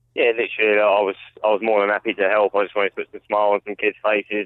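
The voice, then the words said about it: London accent. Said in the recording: “we could tell with your accent, mate, where you're from ... this fine city of uh, of London”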